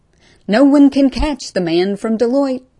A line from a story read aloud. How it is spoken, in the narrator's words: Pops shouted at the suits retreating back